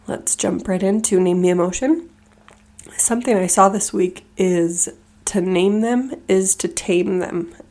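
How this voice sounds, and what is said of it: Congested voice from a cold. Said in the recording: “apologize for my voice. We are getting over colds, so this is how I sound.”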